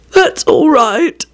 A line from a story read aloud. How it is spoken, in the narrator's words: he croaked